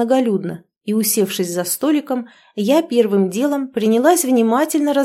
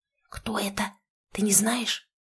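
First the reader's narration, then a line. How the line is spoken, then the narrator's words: Whispered question. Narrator (Russian): шепотом спросила я у Леночки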